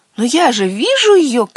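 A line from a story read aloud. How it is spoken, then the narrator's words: Small water sprite shouting. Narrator (Russian): крикнул маленькой водяной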